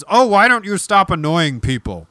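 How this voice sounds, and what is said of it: Gruff Muppet-like attempted impression. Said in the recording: “my best Jimmy Stewart impersonation ... it came out as ... the love child of Oscar the Grouch and Cookie Monster”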